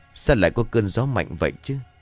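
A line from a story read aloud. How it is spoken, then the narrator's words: Muttered. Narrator (Vietnamese): Miệng của nó lẩm bẩm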